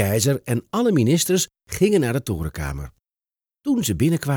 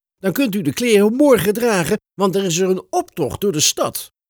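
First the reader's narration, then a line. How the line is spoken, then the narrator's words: Calling out. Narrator (Dutch): riep de minister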